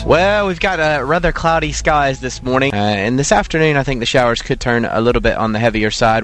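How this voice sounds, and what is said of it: Distinctive regional accent. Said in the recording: “I love the way you say thunder with that accent. It's just wonderful... What a fantastic accent.”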